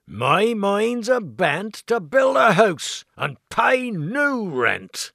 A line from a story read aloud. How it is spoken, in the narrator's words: cried John